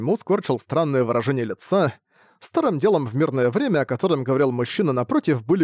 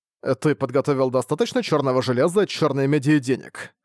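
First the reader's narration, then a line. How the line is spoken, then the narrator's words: Plain question. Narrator (Russian): спросил Саньму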